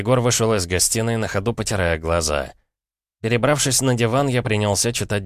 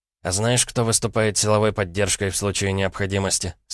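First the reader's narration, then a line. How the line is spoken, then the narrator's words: Plain. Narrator (Russian): спросил Егор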